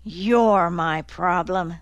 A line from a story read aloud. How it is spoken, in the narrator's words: Dozer grumbled